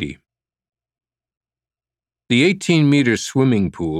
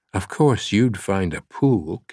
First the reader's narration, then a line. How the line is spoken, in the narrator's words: Catherine whispered in the reverberant space